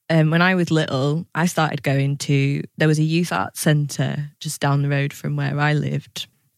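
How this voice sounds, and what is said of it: Northern English Lancashire accent. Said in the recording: “as you can tell by my accent, I'm not from here. ... I'm from the northwest, from Lancashire.”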